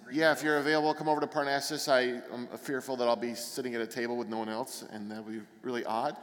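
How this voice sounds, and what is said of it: Noticeable non-local accent. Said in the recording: “Not with my accent. ... No, especially with that.”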